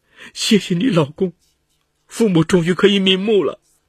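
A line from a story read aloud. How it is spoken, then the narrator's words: Sobbing loudly. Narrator (Chinese): 周小华大哭道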